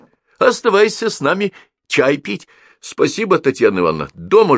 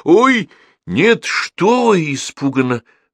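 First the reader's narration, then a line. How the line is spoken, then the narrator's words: Exclamation then whisper. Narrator (Russian): воскликнул и шепнул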